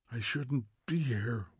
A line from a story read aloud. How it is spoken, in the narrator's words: whispered Montag, almost to himself